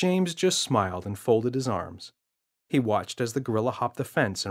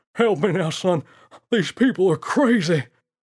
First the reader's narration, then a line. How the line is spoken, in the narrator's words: As he ran past, the naughty ape wheezed